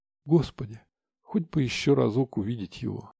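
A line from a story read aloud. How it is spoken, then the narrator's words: Tearful whisper. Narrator (Russian): вытирая выкатывающуюся из-под ресницы слезинку, шептала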